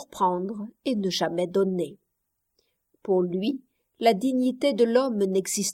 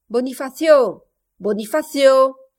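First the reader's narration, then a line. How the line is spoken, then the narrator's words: Master of house shouting. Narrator (French): cria le maître du logis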